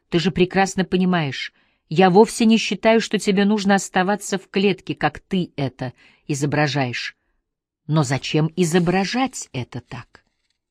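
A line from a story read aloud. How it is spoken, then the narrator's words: Calm. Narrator (Russian): Хью сказал спокойно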